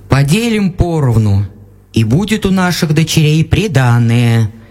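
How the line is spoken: Plain. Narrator (Russian): сказал отец

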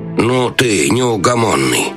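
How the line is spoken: Grumbling. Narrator (Russian): проворчал советник

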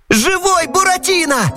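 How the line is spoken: Excited yell. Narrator (Russian): завопил Пьеро

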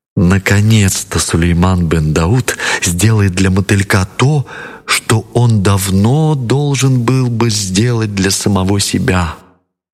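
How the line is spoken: Cheerful whisper. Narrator (Russian): весело захлопала в ладоши и прошептала

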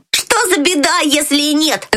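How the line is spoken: Shouting. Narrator (Russian): закричал Фриц

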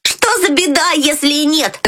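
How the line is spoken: Shout. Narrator (Russian): закричал Фриц

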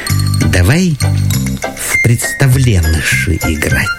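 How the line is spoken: Little girl whispering. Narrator (Russian): домового дочка говорит шепотом

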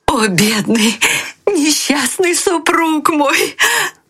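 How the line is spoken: Crying out. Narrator (Russian): кричала она

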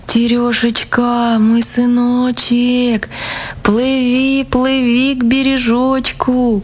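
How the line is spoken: Thin calling voice. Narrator (Russian): мать, стала звать сына тоненьким голоском

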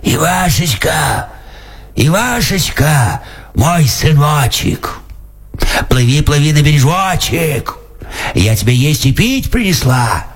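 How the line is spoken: Hoarse calling. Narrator (Russian): кричит хриплым голосом

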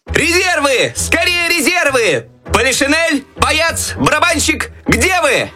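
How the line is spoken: Desperate shouting for help. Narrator (Russian): отчаянно кричал Щелкунчик, надеясь на помощь

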